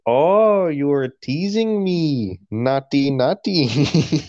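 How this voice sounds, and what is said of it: Put-on Palestinian accent. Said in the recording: “Palestinian accent”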